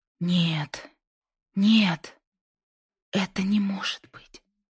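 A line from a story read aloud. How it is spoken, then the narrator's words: Breathless whisper. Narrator (Russian): прошептала Линда, почти теряя способность дышать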